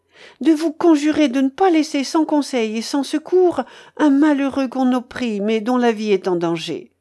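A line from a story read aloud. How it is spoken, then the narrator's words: Pleading retort, woman. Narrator (French): répliqua la suppliante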